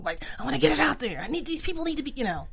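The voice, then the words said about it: Imitates a character's voice. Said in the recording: “I like your impression of her... It's so very good.”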